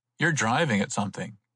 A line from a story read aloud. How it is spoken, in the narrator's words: he said sharply